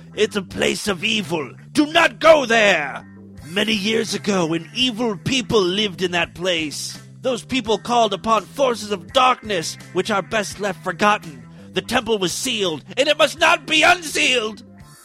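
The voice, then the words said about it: Put-on unidentifiable accent. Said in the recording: “I don't know what kind of accent that is.”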